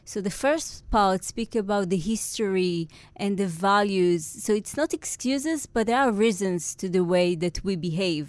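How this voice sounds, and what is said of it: Israeli accent. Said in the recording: “you can hear right now my Israeli accent”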